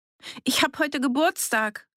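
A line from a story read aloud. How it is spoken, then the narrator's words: Shout. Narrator (German): rief sie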